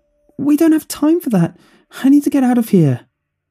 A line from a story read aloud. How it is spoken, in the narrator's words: He cried